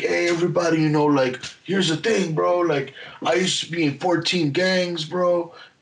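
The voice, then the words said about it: Exaggerated Mexican accent. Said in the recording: “I would up the Mexican accent a little bit”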